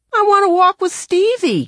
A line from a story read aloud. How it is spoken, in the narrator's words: Kevin cried